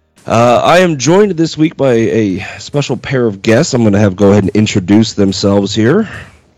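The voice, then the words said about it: Sick, sniffly congested voice. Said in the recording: “I sound a little different this week, it is because I am sick, so please ignore my sniffles and sniffs”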